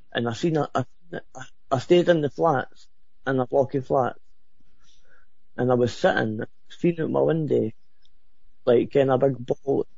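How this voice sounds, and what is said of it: Very thick accent. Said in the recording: “you have an accent that I could cut with a knife”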